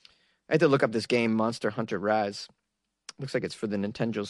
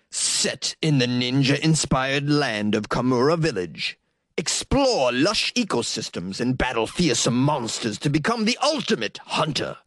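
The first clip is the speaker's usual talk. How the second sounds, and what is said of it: Video game trailer voice. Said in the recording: “in my video game voice”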